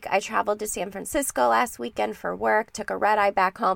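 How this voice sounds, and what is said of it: Congested voice from a cold. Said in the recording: “as you can tell from my voice, I've been fighting a cold all week”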